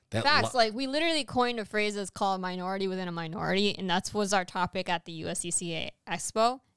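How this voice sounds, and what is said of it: Hispanic accent. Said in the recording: “She's totally Hispanic today, everybody. She cannot speak. She cannot speak correctly. ... Don't make fun of my accent.”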